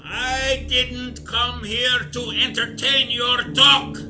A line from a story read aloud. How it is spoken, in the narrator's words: barked